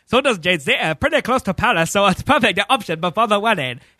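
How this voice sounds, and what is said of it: Put-on accent shifting between several. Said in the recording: “what is that accent? This is like an Arabic dude ... Your accent slowly changed, I think, to three different things at one point.”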